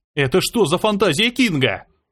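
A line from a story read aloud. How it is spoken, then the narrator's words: Yelling while running away. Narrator (Russian): заорал я, убегая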